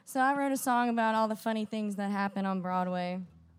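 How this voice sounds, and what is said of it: Strained, fading voice. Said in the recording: “I'm kind of losing my voice. It's been rough these past couple days”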